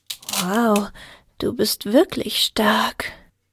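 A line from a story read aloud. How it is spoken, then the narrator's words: Murmur. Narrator (German): murmelte Alpina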